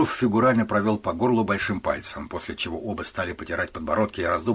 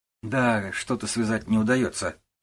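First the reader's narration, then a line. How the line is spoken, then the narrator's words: Sighing. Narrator (Russian): вздохнул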